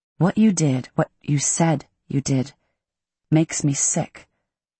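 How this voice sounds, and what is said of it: Lowered, quieter voice. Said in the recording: “I lower my voice.”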